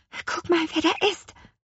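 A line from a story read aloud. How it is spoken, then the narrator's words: Whispering. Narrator (German): flüsterte Lea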